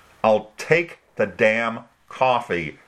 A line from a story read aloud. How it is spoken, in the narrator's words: Dorothy said through clenched teeth